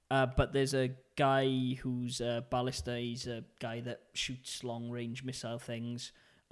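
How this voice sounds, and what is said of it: Welsh accent. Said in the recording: “it's my Welsh accent”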